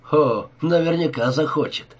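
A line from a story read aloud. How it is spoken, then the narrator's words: Cheerful reply. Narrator (Russian): весело ответил Гиллис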